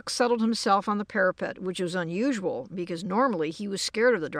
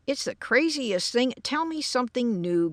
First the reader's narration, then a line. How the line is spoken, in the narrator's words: growled George